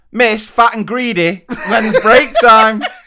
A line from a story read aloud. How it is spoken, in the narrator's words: she finally came and tugged my sleeve and shouted